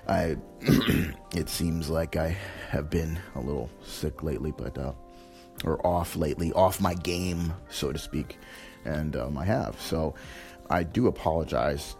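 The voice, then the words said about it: Hoarse, fading voice from a cold. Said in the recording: “As you can tell, maybe from hearing my voice, I'm losing my voice. I came down with a cold.”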